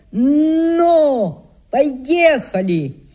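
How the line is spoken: Sudden shout. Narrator (Russian): да как крикнет

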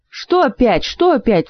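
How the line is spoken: Indignant whine. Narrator (Russian): возмущенно проныл тот

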